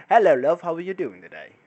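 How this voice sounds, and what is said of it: Put-on British accent. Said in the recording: “Like a British accent”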